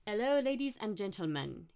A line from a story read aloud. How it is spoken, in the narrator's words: he said in a thick French accent